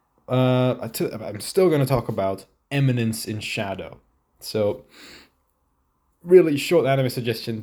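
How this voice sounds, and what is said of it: Sick, congested voice. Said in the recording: “I might sound a little sick, that's because I am ... I have a cold.”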